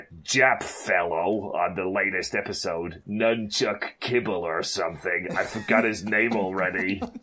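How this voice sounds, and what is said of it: Wandering put-on American accent, strained. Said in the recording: “How's my American accent? I think I went to about like 4 or 5 different states just with that one little speech there ... You were like squeezing something out as you were like talking ... a Jamaican Texan”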